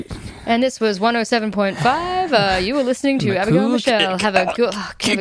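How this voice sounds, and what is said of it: Mock radio announcer voice. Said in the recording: “this is your impression of music on the radio? ... You nailed it.”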